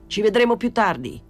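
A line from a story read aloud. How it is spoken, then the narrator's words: Shouted. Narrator (Italian): gridò a Pilon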